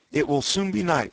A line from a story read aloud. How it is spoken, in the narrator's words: said Exodar